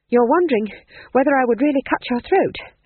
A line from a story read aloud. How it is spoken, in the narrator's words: panted McGrath